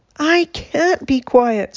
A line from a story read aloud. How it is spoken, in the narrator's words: screamed Wilbur